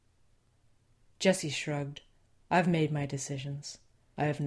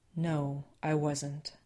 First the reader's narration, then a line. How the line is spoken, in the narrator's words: Sam said in a soothing voice